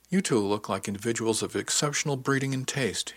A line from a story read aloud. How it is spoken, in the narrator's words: he exclaimed